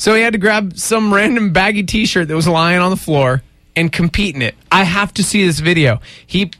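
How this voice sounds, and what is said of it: Usual voice. Nothing is said of it.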